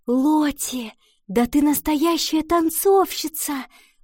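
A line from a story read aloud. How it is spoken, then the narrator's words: Exclamation. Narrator (Russian): воскликнула Валентина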